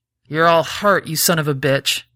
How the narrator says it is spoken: she spat

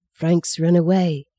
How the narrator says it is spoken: breathed

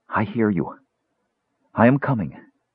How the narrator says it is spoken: she murmured

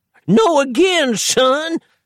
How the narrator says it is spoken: screamed the paralyzed dangler

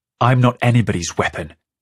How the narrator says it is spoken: Feta snaps

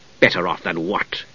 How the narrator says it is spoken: Steele demanded harshly

